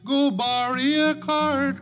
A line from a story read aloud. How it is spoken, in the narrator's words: cried Billy Barlow